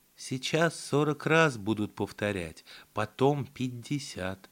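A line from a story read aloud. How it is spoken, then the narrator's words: Quiet, into ear. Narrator (Russian): тихонько прокомментировала мне на ухо Клавдия Ивановна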